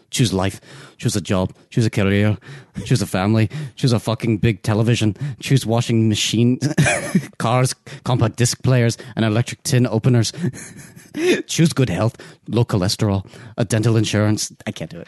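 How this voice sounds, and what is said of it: Attempted Scottish accent. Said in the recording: “I'm not that good at a Scottish accent.”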